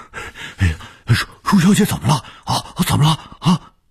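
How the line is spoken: Old man, urgent. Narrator (Chinese): 卢老头 急切地说

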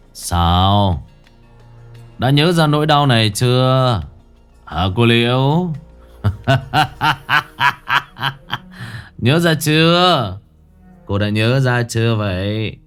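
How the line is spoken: Sneering, mocking. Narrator (Vietnamese): Hắn cười khẩy

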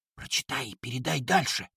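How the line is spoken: Whisper. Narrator (Russian): прошептал

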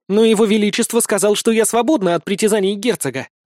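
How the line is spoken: Exclaimed. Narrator (Russian): воскликнула Нини

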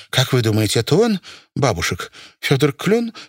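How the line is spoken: Unsteady question. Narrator (Russian): спросила Настя Кох нетвердым голосом

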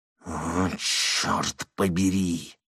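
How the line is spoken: Wild whisper. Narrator (Russian): дико прошептал Аларин

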